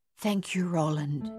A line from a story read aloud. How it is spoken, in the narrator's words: Madame Chassé whispered